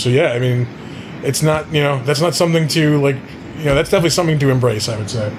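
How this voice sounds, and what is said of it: Choked-up, emotional voice. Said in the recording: “I'm getting all choked up”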